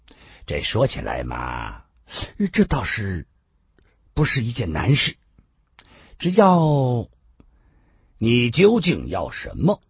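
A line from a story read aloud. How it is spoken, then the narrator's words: Laughing. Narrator (Chinese): 温良玉也笑了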